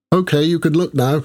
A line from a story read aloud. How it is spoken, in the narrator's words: she said, her voice slightly muffled